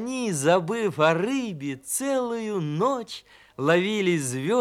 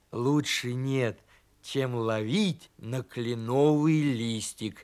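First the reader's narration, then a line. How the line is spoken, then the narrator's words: Plain. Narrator (Russian): сказал он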